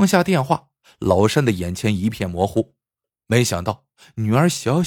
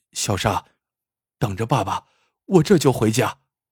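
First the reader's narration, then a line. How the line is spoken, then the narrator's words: Choked, tearful voice. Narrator (Chinese): 老山的眼泪唰的一下下来了，哽咽着说了句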